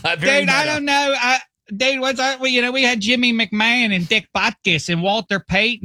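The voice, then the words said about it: Put-on Pittsburgh accent as Chicagoan. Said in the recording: “I'm doing a Pittsburgh accent because I can't do a Chicago one ... This is Pittsburgh doing a Chicago guy”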